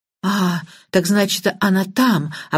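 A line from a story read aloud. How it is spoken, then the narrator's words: Relieved sigh. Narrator (Russian): облегченно вздохнула Банч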